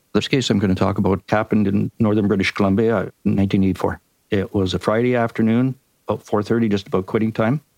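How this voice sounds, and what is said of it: Canadian accent. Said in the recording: “my Canadian accent ... We love your Canadian accent.”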